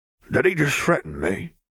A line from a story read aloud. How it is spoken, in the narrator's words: Gilbert slurred